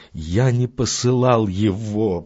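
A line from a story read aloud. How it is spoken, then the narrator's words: Groaning. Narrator (Russian): простонал он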